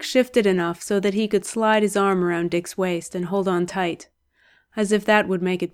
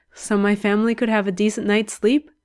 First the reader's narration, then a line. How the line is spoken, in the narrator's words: huff of a laugh